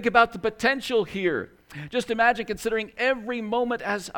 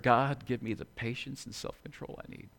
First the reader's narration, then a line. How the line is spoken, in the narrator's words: an angry person approaching, we whisper